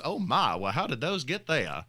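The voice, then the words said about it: Jimmy Carter impression. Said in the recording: “That was a lovely impression”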